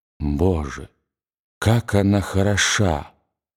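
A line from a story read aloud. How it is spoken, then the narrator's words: Trembling, emotional whisper. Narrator (Russian): он задрожал в одном из тех порывов волнения, которые заставляют мужчину забыть обо всем, и … прошептал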